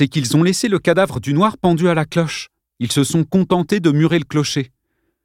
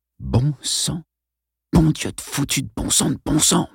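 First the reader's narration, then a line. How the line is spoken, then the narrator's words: Murmured. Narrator (French): murmura Arlène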